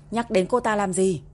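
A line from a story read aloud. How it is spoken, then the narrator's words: Cold shout. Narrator (Vietnamese): Quân Vĩ Dương lạnh lùng hét lên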